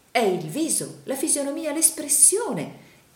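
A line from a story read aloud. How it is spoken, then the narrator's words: Exclaimed. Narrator (Italian): esclamò il signor Pike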